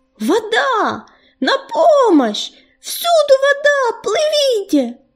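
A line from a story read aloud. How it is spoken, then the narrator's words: Shouting, then choking. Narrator (Russian): закричал Ежевика и тут же поперхнулся, потому что соленая, едкая вода хлынула ему в рот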